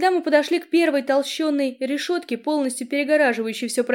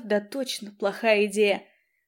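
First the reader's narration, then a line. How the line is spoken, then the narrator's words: Muttered. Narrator (Russian): пробормотав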